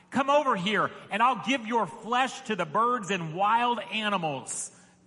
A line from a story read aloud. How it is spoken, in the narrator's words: Goliath yelled